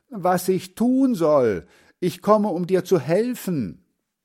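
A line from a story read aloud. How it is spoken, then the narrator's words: Calling out. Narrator (German): ruft Hans Frieder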